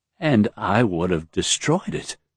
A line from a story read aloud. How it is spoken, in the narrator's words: he mumbled